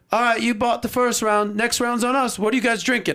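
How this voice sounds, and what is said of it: Poor put-on Australian accent. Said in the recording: “I'll butcher this Australian accent.”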